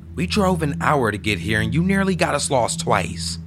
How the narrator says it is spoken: said angrily

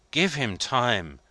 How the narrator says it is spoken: pleaded Maitre Voigt

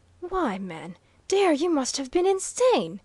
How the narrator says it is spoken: impulsively cried the professor, unable longer to control his tongue

